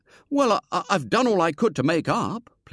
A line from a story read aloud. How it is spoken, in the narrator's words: pleaded William